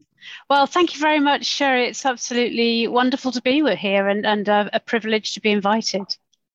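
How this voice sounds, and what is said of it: Non-American, British English accent. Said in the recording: “not from the United States, as you can tell from her beautiful accent”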